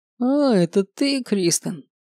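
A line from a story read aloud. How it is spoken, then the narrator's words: Feigned casual tone. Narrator (Russian): произнес наследник деланно небрежным тоном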